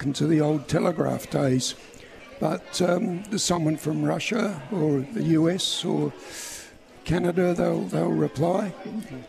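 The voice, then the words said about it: Broad Australian accent. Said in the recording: “a broad Australian accent”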